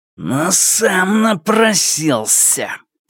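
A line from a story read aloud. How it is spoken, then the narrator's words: Growl. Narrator (Russian): прорычал Пин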